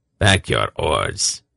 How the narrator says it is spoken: Kreska commanded his crew in a low voice

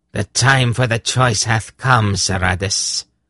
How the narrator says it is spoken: Xandramas said, her voice cruel

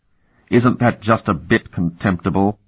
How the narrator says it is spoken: Davia sneered

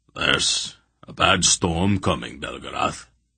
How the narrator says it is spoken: Barak rumbled

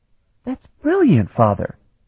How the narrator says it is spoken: she exclaimed

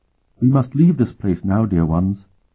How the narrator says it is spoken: said sadly

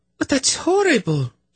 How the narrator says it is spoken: she gasped

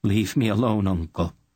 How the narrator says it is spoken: she replied in a voice still choked with sorrow

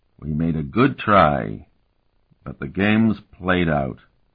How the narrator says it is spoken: he drawled

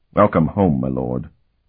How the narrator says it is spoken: he said in a thick voice

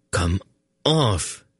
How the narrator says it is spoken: he muttered to it

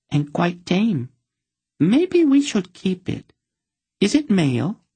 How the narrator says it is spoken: Another one giggled

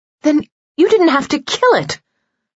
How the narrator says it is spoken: Pox cried, angry again

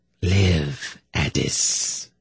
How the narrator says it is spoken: murmured

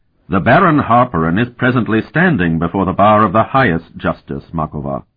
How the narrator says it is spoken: Dolmant said in a deadly tone

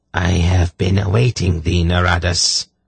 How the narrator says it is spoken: she said in her harshly accented voice

